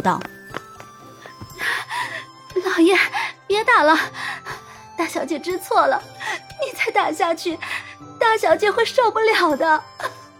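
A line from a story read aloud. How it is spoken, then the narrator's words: Tearful pleading. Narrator (Chinese): 绿芜……哭着央求道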